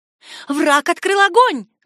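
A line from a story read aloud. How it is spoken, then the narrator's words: Shouted. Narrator (Russian): крикнула она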